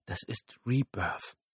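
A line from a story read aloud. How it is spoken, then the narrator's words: Whispered. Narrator (German): flüsterte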